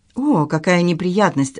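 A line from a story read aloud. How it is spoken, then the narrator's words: Sigh. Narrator (Russian): вздохнула Жозетта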